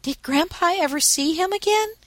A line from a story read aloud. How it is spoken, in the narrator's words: asked eagerly